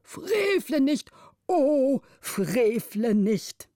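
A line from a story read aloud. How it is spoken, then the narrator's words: Tearful old man calling. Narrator (German): der älteste Vormund mit Tränen auf den speckigen Wangen rief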